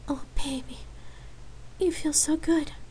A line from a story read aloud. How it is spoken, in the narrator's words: Lark whispered in Rain's ear